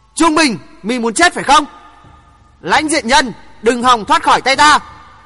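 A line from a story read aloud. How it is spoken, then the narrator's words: Restrained man shouting. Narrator (Vietnamese): Nhưng vì nể tình Đinh Hồng, chàng không nỡ hạ thủ Trung Bình, chàng hét to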